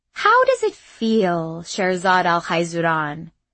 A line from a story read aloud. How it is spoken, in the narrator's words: Despina said in a melodious voice